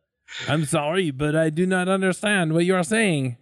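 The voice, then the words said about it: Bad put-on French accent. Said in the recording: “Can we do this entire interview in a bad French accent? ... Very bad French accent.”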